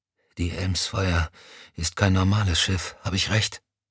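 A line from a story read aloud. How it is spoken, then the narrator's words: Exhausted whisper. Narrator (German): Erschöpft … flüsterte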